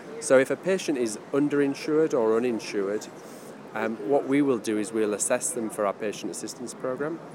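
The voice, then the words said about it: British accent. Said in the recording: “I'm a British citizen, you can probably tell by the accent.”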